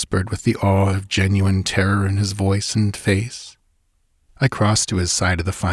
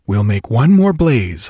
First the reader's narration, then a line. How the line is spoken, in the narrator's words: I said firmly